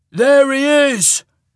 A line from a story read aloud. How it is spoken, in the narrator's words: someone shouted